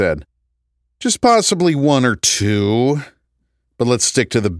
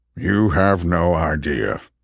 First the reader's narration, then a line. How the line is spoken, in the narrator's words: Norm muttered